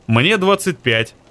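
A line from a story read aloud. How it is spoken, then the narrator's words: Plain. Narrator (Russian): ответил Кристиан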